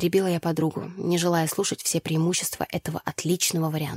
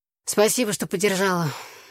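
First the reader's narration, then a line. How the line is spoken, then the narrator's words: Sighing. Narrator (Russian): вздохнула я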